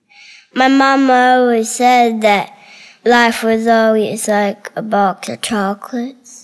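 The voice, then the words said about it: Spot-on Forrest Gump accent impression. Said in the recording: “You're a good Forrest Gump! Holy cow, that's a good Forrest Gump... that accent was spot on”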